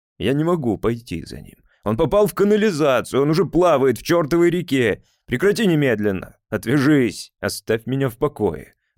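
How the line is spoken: Yelling. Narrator (Russian): орал я

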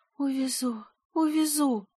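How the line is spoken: Delirious whisper. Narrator (Russian): шептала она, Горлинка говорит в беспамятстве

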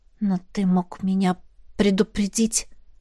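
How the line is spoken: Quiet. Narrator (Russian): сказала я тихо

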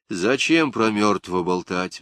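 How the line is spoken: Sighing. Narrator (Russian): вздохнул Агамерзян

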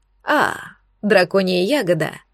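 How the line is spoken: Satisfied grunt. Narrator (Russian): с удовлетворением хмыкнул Эйнар

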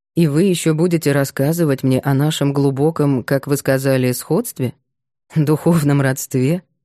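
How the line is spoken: Dismissive laugh. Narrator (Russian): Макар пренебрежительно рассмеялся

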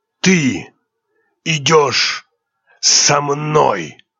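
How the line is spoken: Hoarse, fearful rasp. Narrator (Russian): прохрипел Дамиан Айтен Раллах, а в его голосе она без труда ощутила страх

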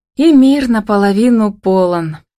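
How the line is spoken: Chiming in. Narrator (Russian): подхватила Камила

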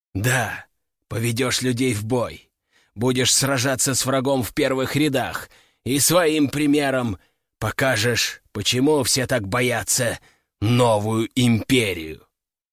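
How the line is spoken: Growling. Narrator (Russian): рыкнул император

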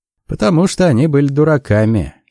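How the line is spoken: Mocking. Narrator (Russian): сказал насмешливо

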